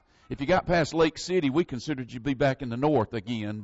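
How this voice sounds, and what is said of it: American southern accent. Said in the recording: “I speak with what some would refer to as a southern accent... we all spoke Southern where I came from. And that's why I speak like I do.”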